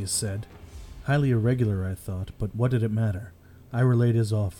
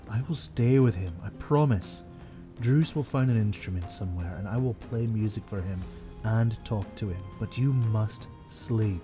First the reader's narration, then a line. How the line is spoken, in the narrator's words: I murmured